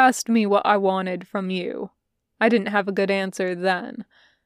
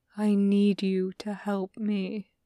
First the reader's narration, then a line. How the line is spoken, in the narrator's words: he says quietly